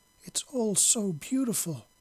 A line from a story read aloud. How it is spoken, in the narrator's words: they cried together